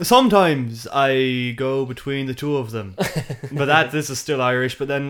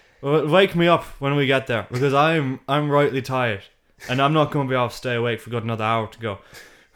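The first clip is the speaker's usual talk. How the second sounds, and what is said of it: Good put-on Irish accent. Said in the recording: “I'm actually really impressed with the Irish accent. That's pretty good ... that's pretty good. Like that's not an easy one.”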